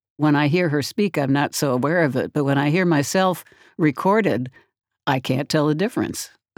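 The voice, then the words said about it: Strained voice from a cold. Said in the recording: “I developed a pretty bad cold. So my voice has been quite strained”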